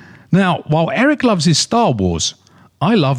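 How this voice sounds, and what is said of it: Usual voice. Nothing is said of it.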